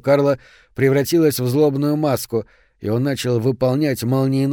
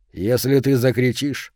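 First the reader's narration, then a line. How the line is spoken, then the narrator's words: Plain. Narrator (Russian): сказал ей Кёних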